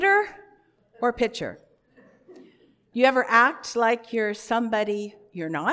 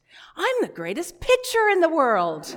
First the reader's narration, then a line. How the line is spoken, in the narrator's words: exclaimed